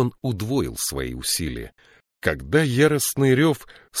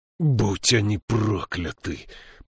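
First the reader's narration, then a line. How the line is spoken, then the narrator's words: Groaning. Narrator (Russian): простонал Слудик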